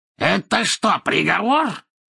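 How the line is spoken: Angry raised voice. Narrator (Russian): спросил Мракс, злобно повысив голос

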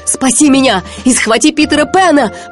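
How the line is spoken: Shouted reply. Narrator (Russian): прокричал в ответ Крюк

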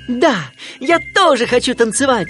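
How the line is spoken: Duckling shouting. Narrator (Russian): крикнул утенок

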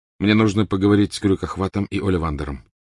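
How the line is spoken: Plain. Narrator (Russian): сказал Гарри

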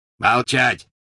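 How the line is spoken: Barking. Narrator (Russian): рявкнул Грюм

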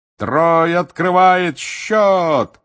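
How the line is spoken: Roaring. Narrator (Russian): взревел Бэгман

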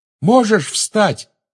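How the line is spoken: Shout into ear. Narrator (Russian): крикнул он в ухо товарищу

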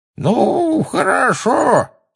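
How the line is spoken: Quavering old voice. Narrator (Russian): сказал он дребезжащим старческим голоском

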